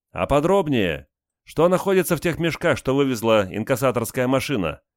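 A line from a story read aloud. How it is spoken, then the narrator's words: Loudest shout. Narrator (Russian): громче всех крикнула рыжеволосая девица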